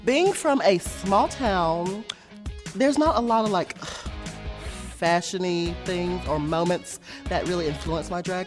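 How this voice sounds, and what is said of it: Southern twang accent. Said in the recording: “She's this like got this Southern twang... I love a little Southern accent”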